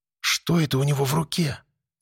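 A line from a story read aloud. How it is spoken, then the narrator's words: Breathless, anxious whisper. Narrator (Russian): с замиранием сердца прошептала Алена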